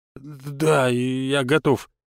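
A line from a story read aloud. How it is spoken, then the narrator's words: Mutter. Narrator (Russian): пробормотал Сазонов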